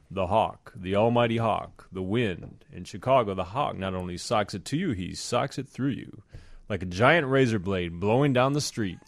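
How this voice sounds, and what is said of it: Imitates a singer's spoken-word voice. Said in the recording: “that was a great Lou Rawls impression”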